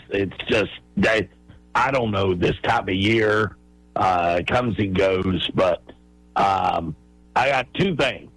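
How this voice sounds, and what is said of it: Voice sounds unwell or strained. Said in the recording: “Apologize for my voice.”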